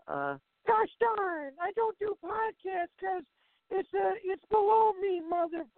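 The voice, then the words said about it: Imitates another person's voice. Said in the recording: “my best Jim Cornette impression.”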